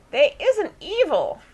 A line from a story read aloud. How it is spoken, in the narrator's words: Daisy now squeaked, having come to sufficiently to overhear this speech